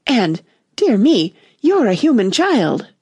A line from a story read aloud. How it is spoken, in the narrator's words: it cried out in a voice of delight